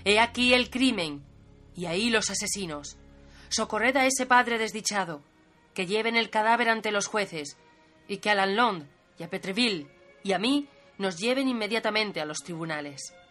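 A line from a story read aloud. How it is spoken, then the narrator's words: Powerful exclamation. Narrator (Spanish): Baduin exclamó con voz potente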